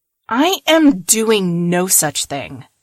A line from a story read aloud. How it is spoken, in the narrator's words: Kiao shouted back